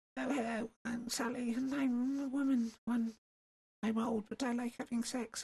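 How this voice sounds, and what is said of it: Impression of an old, tipsy woman. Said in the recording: “doing an impression of Sally ... She's a good character. And she's a little drunk.”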